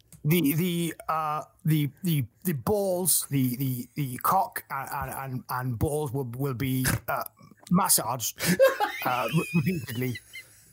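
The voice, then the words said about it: Boris Johnson impression. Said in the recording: “in the voice of Boris Johnson”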